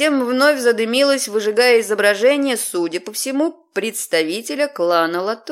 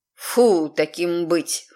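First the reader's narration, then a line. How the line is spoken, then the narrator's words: Snorting. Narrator (Russian): фыркнула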